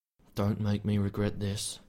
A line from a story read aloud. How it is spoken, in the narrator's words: Finn muttered fiercely under his breath